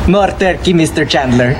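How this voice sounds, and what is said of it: Thick put-on accent. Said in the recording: “that guy's accent gets thicker and thicker”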